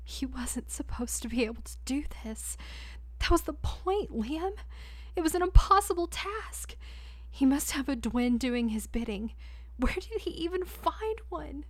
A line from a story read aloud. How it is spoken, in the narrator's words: She choked on a sob ... broken desperation